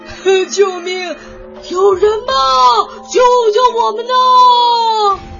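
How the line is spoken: Loud wailing cries. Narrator (Chinese): 三个动物嚎啕大哭

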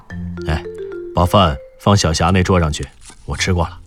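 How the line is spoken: Low voice. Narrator (Chinese): 刘迪川低声说道

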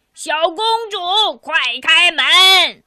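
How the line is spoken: Loud yelling. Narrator (Chinese): 有人大声的嚷嚷

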